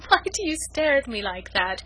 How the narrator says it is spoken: she said playfully

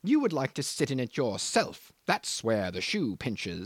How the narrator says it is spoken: he sneers

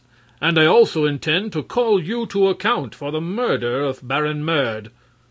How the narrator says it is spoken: Prince Marvel announced in a bold voice

